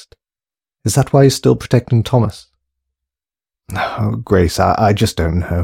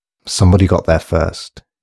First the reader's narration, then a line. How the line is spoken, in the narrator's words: he said gravely